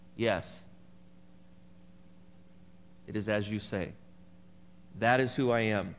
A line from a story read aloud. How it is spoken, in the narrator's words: Jesus replied